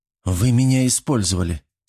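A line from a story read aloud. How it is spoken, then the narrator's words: Calm. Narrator (Russian): спокойно произнес Кирилл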